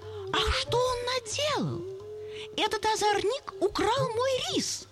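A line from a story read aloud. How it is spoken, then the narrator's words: Bitter exclamation. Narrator (Russian): брахман с горечью воскликнул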